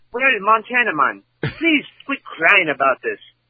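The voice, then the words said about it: Put-on Australian accent, sounds Irish. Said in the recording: “if you do it in Australian, do an Australian voice... that probably sounds more like Irish, I'd say.”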